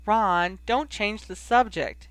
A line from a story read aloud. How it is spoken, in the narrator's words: begged, to plead into the kitchen